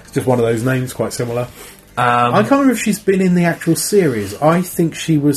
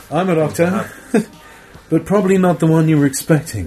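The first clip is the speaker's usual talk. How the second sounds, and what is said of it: Relaxed Liverpool accent impression. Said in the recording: “my strange Paul McGann impression again. It's just a quite a relaxed Liverpool kind of accent”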